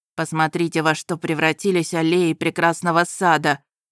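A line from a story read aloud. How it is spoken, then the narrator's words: Grumbling. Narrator (Russian): проворчал разбойник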